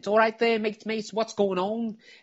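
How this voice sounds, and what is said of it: Thick Liverpudlian accent impression. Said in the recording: “he's got that thick Liverpudlian accent.”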